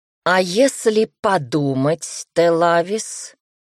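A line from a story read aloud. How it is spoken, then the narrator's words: Growl. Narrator (Russian): рыкнул мужчина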